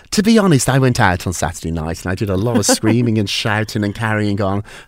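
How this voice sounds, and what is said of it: Sore-throat voice. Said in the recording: “worried about my voice. I have a sore throat”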